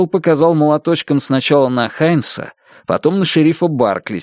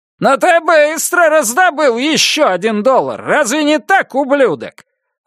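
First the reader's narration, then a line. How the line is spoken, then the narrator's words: Shouting. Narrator (Russian): выкрикнула Абель Хайнс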